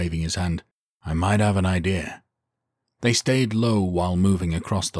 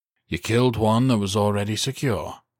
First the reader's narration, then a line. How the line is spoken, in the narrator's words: he said dryly